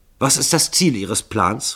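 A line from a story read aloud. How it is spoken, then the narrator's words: Hasty question. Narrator (German): fragte Starkington hastig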